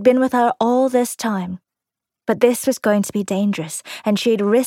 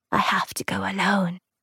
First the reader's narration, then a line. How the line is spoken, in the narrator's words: whispered